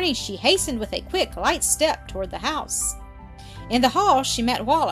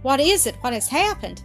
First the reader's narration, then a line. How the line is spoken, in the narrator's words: he exclaimed